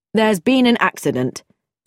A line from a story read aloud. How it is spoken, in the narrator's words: said George curtly